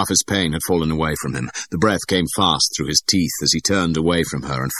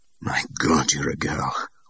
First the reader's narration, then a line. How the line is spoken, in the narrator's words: whispered Bond